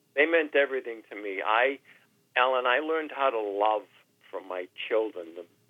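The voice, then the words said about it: Emotional, choked-up voice. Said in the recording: “Oh, God. I'm getting emotional.”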